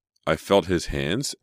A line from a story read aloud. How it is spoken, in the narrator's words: Emma continued in a shaky voice